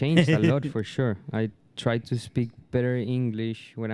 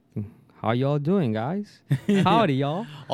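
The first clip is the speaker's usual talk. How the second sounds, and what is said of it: Exaggerated put-on accent. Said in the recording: “more accent”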